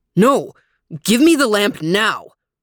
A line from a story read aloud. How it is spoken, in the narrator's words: cried the old man